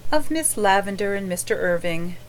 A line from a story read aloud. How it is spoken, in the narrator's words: answered Anne dreamily